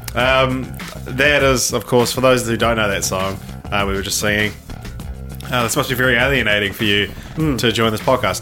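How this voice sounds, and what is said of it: New Zealand accent. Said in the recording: “what's this New Zealand podcast? I love the New Zealand accent.”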